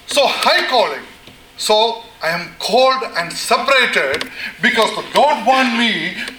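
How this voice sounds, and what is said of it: Loud screaming preaching voice. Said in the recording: “There are two reasons why I'm screaming. ... Excuse me for if I am screaming.”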